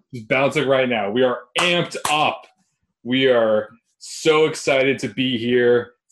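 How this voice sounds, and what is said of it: Sarcastic, mock-enthusiastic tone. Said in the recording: “Sounds like I'm being sarcastic, but I'm not. Maybe I am a little bit.”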